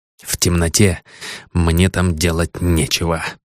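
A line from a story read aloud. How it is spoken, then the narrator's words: Mutter. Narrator (Russian): пробормотал он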